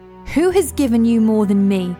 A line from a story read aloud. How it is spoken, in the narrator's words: she barked